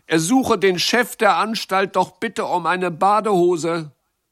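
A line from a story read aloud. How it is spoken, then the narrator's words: Called out. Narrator (German): rief Jacques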